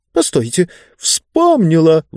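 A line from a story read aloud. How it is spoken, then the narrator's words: Sudden exclamation. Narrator (Russian): вдруг воскликнула книга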